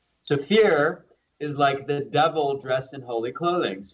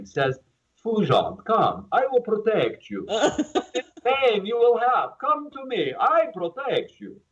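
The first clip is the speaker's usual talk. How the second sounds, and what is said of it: Put-on foreign accent. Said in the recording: “I sometimes do accents. I'm an equal opportunity accent creator. I love all people. I just do accents”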